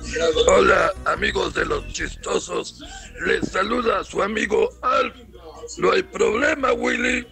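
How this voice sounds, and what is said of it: Imitation of the puppet character Alf. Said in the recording (Spanish): “me parece una buena imitación de Alf”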